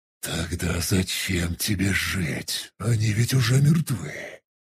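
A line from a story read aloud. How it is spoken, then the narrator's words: Reasoned demonic hiss. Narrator (Russian): Рассудительно прошипел демон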